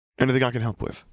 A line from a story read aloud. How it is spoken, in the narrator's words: Harry asked